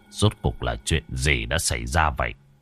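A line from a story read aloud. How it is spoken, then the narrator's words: Grim muttering to himself. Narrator (Vietnamese): Thường Kiệt tướng quân xây sầm mặt mày, ngài tự lẩm bẩm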